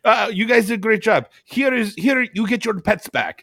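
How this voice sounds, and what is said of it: Put-on Eastern European accent. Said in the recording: “stereotypical Eastern European accent ... I can't do this accent ... perfect accent”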